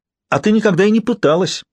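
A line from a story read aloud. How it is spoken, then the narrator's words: Snapping. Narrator (Russian): огрызнулась нянюшка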